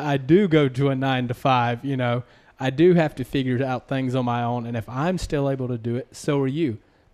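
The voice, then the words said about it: Southern American accent. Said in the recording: “I have a slight complex about my accent, you know, being from the South”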